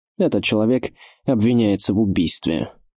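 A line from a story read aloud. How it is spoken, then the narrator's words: Calm reply. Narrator (Russian): спокойно ответил мамелюк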